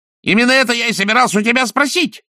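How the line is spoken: Yelled. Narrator (Russian): завопил он

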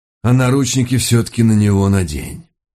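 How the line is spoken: Sighing. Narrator (Russian): добавил, вздохнув

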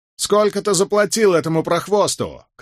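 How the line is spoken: Shout. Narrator (Russian): крикнул кто-то

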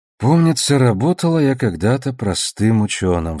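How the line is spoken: Sigh. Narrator (Russian): вздохнула Элви

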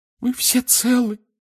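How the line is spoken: Sobbing. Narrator (Russian): всхлипнула миссис Уизли

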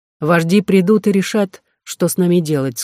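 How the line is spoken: Plain. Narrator (Russian): сказала Онега

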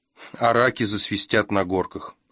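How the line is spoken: Snorting. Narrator (Russian): хмыкнул Кевин

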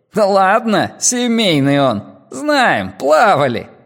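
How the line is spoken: Laughing. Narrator (Russian): Гоша смеялся

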